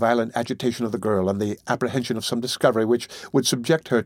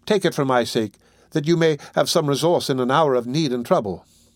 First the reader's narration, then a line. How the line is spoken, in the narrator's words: cried the young lady